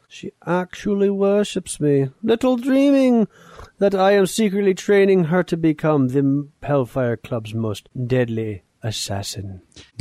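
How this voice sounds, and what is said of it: Emma Frost character voice. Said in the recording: “that Emma Frost voice”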